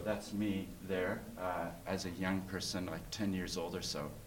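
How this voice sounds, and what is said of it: Noticeable foreign accent. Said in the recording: “So I have an accent”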